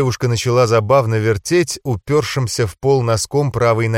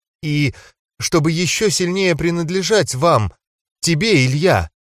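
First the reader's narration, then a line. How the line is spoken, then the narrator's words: Forced out, embarrassed. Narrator (Russian): Наконец-то выдавила она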